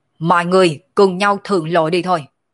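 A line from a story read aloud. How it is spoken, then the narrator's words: Laughing shout. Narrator (Vietnamese): Sở Dương cười ha ha, quát lên nói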